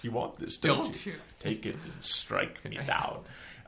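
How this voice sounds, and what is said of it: Palpatine impression. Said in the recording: “just do a Palpatine impression”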